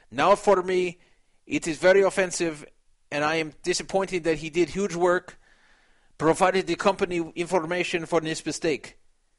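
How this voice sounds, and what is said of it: Reads aloud in put-on accent. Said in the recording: “I'm really reading his words, even though I'm putting this accent in.”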